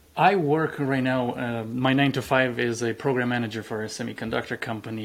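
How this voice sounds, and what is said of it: Noticeable foreign accent. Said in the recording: “I have a funny accent ... I came to the United States”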